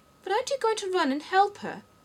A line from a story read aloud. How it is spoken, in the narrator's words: Alice asked, very much surprised